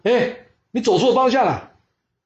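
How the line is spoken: Loud shout. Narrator (Chinese): 杨岳 他大声叫说

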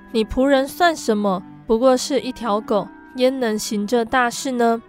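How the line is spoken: Plain. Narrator (Chinese): 以利沙回答说

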